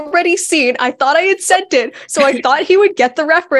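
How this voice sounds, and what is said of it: Usual voice. Nothing is said of it.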